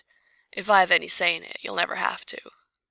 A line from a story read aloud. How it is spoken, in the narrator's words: his voice was heavy with finality as he murmured